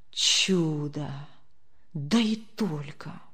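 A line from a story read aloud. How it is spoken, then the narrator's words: Low voice. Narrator (Russian): вполголоса произнес Демьян Лукич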